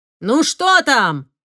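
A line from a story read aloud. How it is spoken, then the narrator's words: Father shouting. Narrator (Russian): крикнул отец кучеру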